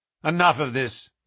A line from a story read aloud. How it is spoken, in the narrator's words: said my friend coldly